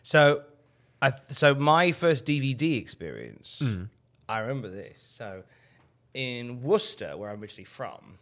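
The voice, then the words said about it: Worcester, Massachusetts accent. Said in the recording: “Worcester, Massachusetts, yes. ... Explains the accent. ... It does explain the accent”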